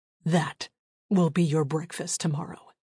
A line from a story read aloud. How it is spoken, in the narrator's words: says through clenched teeth